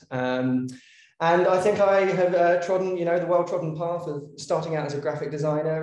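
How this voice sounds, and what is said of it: London English accent. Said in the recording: “you can probably tell from the accent that that's not my, you know, origin. I'm from London originally”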